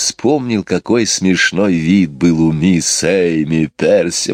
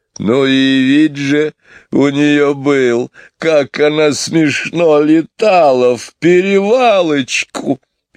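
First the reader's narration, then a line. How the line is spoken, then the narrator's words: Laughing heartily. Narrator (Russian): он вместе с Джейн и с Майклом опять захохотал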